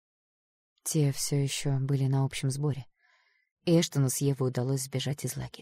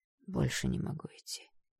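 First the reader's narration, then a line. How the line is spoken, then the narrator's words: Hoarse. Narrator (Russian): хрипло сказал он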